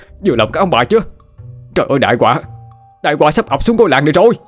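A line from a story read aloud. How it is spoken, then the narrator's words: Despairing wail. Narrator (Vietnamese): Hậu gào lên trong vô vọng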